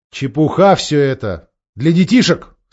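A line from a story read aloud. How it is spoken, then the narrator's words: Stern king. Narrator (Russian): строго сказал король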